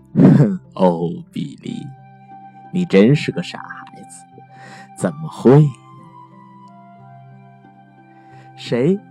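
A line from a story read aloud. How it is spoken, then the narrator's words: Helpless laugh, father. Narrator (Chinese): 爸爸无奈的笑了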